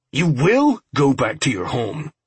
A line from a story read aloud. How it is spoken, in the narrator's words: Robinson snarled at the old lady